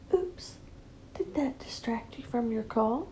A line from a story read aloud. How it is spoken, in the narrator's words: You whisper